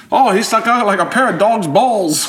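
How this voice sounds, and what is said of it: Put-on Australian accent. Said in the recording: “There's not an Australian accent yet. ... I'm getting into character.”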